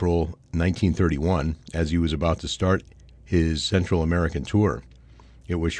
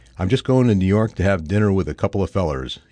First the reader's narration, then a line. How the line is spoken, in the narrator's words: said laughed